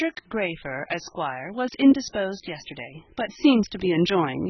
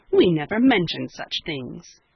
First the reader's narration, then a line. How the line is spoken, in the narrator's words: Cecily, sharply